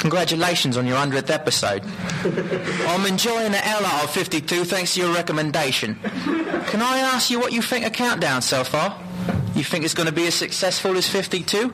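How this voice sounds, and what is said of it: Menacing put-on London accent. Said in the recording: “what part of the UK should it sound like? ... It's from London. ... Should I do the scary one? ... That accent always freaks me out. It just, like, it's like the scary guy in the bar”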